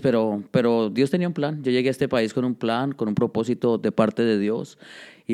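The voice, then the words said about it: Speaks with his native accent. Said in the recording (Spanish): “De repente como que te sale tu acento.”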